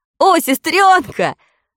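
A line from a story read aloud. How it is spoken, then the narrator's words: Joyful exclamation. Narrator (Russian): радостно воскликнул Фредди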